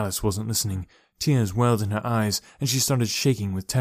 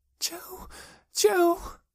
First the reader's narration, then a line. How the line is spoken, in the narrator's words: she whimpered